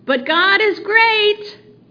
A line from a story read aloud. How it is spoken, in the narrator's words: David shouted up to him